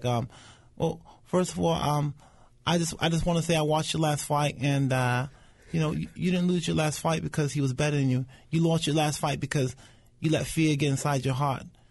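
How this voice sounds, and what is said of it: Imitates another person's voice. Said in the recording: “pretty good Mike Tyson impersonation”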